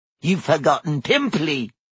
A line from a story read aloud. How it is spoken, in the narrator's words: Peeves hissed in her ear